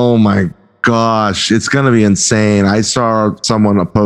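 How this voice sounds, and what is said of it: Usual voice. Nothing is said of it.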